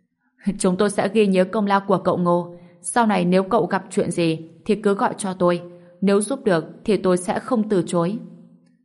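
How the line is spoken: Laughing loudly. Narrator (Vietnamese): Hà Tất Sĩ cười lớn

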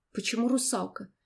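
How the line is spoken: Hoarse. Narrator (Russian): произнесла я хрипло

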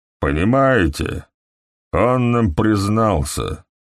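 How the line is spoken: Low monotone. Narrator (Russian): сказал доктор Фэлл все тем же низким монотонным голосом

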